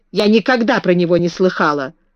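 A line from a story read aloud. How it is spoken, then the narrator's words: Snapping retort. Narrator (Russian): огрызнулась Мэри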